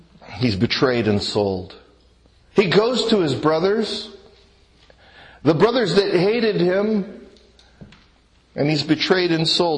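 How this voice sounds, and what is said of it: Southern Alabama accent. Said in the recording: “that's some accent you have, you aren't from around here ... Dothan, Alabama”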